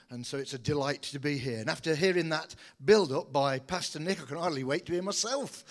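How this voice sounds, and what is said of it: British accent. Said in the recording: “I do trust you can understand the accent. A very good British accent”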